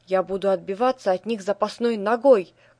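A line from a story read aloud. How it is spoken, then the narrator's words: Brave shouting. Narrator (Russian): крикнула смелая гуся Нося Серафима Стремительная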